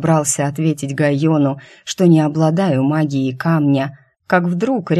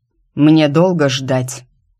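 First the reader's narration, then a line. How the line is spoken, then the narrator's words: Sharp. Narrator (Russian): произнес резко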